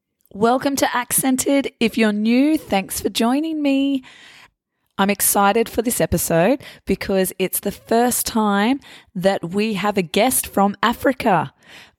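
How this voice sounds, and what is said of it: Hoarse, fading voice from a cold. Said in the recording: “my voice sounds a little funny at the moment... I probably just have a cold and I'm starting to lose my voice”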